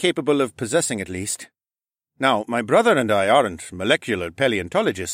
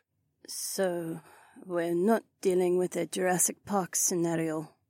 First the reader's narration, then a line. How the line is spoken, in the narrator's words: Heywan mumbled